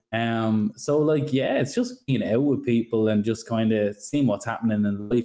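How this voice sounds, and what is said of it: Irish accent. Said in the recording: “I'm from Ireland, you probably hear it in the accent”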